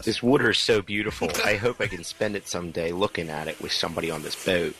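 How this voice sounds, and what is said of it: Put-on Philadelphia accent. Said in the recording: “This is the Titanic with a Philly accent.”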